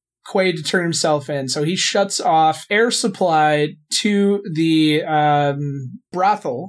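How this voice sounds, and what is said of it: Usual voice. Nothing is said of it.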